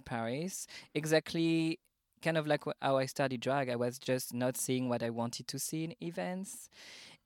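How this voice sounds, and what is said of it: French accent. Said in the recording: “I'm French, as you can hear on my beautiful accent”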